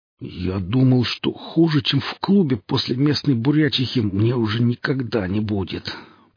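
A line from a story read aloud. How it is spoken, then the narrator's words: Groaning. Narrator (Russian): простонал Бонд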